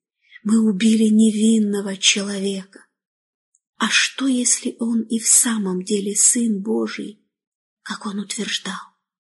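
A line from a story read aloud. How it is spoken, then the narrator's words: Terrified, barely audible murmur. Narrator (Russian): в ужасе чуть слышно говорили друг другу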